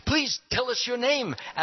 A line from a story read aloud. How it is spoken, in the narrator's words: asked the first demon eagerly